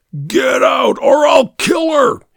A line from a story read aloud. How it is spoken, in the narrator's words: he screamed